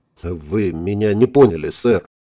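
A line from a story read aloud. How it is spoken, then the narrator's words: Sullen mutter. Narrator (Russian): хмуро пробормотал Гурнисон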